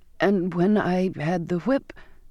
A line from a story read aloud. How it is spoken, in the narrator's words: gathering up my strength again, I stammered